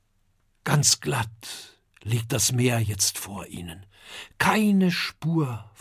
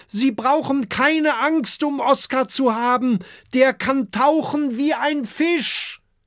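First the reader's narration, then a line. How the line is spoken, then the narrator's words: Calling across. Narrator (German): ruft Kokosnuss zum Strand hinüber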